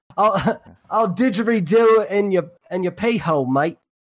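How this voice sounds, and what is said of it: Bad put-on accent, almost Cockney. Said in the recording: “That was almost Cockney.”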